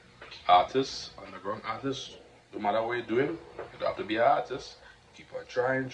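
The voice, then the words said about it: Trinidadian accent. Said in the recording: “accent strong, the Trinidadian accent. You know, keep it hard”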